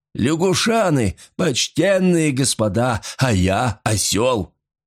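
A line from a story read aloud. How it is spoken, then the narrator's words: Laughing. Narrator (Russian): Каф смеялся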